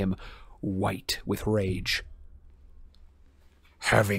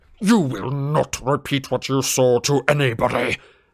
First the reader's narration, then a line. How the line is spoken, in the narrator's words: Snape bellowed